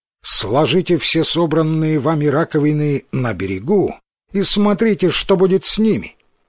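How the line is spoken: Loud commanding voice. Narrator (Russian): приказала им громким властным голосом

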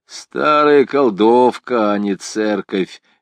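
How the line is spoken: Old man grumbling. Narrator (Russian): ворчал старый цыган Матиас Хунгади из Пикали

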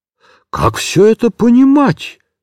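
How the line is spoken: Forced out, strained. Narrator (Russian): только и выдавил он из себя

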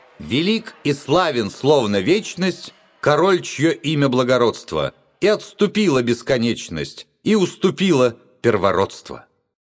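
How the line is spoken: Loud chanting shout. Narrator (Russian): громко нараспев выкрикнул

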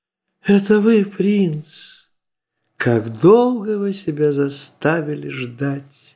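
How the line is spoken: Tender. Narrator (Russian): нежно взирая на принца, промолвила

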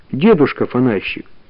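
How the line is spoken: Plain. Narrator (Russian): сказала Таня

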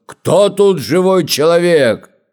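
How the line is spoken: Monster's loud shout. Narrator (Russian): змей лютый … крикнул громким голосом

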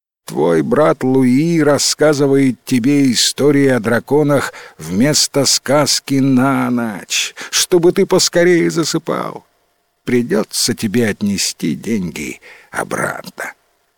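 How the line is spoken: Sad smiling father. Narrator (Russian): печально улыбнулся отец

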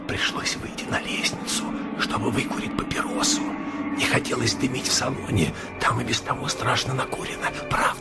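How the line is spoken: Whispered explanation. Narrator (Russian): мистер Эндерби шепотом пояснил

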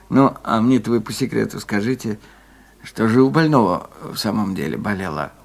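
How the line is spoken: Quiet question close to ear. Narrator (Russian): он наклонившись к самому уху, тихо спросил

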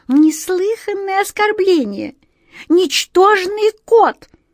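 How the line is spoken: Indignant mouse squeak. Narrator (Russian): возмущенно пищала мышь

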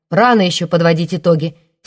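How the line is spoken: Angry. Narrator (Russian): сердито сказал Матвей

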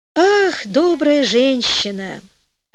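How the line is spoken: Sighing queen. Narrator (Russian): ответила, вздохнув, королева

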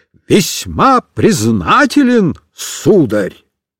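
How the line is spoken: Loud, for all to hear. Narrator (Russian): Носильщик громко, чтобы слышали все соседи и соседки, сказал

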